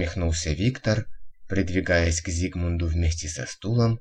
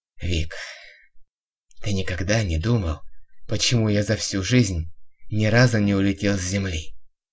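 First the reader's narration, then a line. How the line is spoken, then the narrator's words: Hoarse, trembling. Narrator (Russian): Хриплым и по-прежнему дрожащим голосом спросил вдруг Зигмунд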